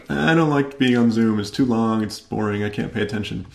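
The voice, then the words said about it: Funny mocking put-on voice. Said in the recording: “I'm making a funny voice as if that's a bad thing to say”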